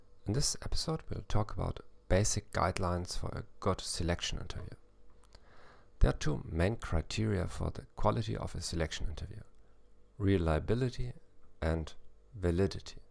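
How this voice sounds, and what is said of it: English with German accent. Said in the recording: “English with a German accent”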